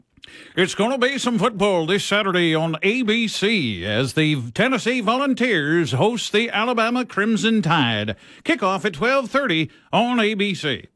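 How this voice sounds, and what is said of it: Imitates a sportscaster's voice. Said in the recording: “my Keith Jackson impersonation”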